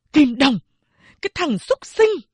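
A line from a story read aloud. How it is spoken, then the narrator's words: Angry scolding. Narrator (Vietnamese): Mẹ giận dữ mắng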